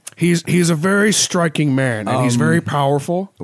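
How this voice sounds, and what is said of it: Bad impression of a rock star. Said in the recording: “my horrible Gene Simmons impersonation”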